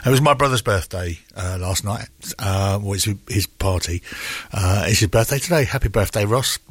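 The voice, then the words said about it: Voice sounding deeper than usual. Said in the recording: “my voice is sounding a bit deep this morning”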